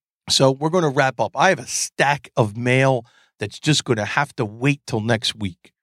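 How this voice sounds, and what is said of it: Hoarse, fading voice. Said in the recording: “I am losing my voice right now”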